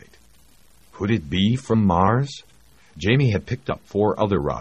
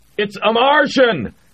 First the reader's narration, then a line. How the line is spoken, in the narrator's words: Jamie shouted